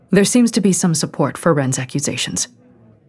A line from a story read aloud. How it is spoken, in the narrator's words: Miyako said stiffly